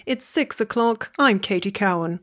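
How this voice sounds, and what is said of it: Formal newsreader radio voice. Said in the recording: “radio voice ... that was a bit rusty”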